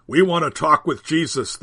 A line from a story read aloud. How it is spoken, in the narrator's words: demand gruffly